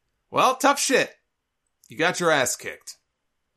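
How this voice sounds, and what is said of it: Usual voice. Nothing is said of it.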